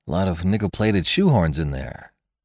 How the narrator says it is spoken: said Jimmy coolly

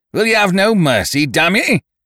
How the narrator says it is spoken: He roared out

